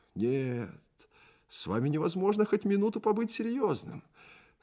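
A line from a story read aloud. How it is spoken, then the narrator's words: Cheerful, smiling. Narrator (Russian): сказал он, весело приподнимая усы и блестя зубами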